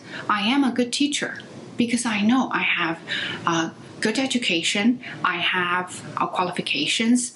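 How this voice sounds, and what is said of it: Non-native English accent, Chinese speaker. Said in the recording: “my accent ... you have accent, because you're a non-native speaker, because you're from China”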